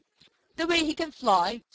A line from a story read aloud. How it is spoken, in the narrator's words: spluttered Skimmer